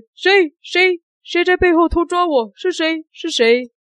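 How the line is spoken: Shouting again. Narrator (Chinese): 这个魔术师助理又叫了一声

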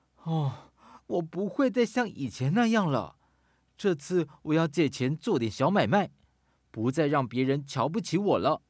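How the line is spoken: Earnest pleading. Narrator (Chinese): 朋友苦苦哀求说

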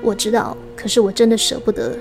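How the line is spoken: Plain. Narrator (Chinese): 说出口

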